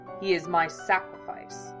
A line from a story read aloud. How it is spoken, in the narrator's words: the priest said coldly